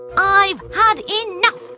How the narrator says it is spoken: snapped Poppy

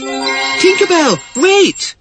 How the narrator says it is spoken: cried Wendy frantically, for she was only a beginner at flying, and she couldn't possibly keep up

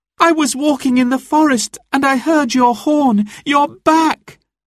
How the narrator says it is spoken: cried Marian

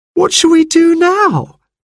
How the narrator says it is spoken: wailed Jane

